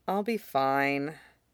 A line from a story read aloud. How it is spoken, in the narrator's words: Peter murmured